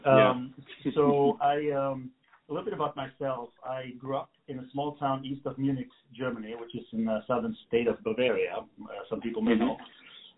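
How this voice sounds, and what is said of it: Thick Texas Southern accent. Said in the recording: “the southern accent that I have ... You have a thick Texas accent, I can hear.”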